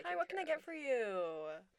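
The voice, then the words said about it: Bright customer service voice. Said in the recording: “I did my customer service voice. ... It was very good.”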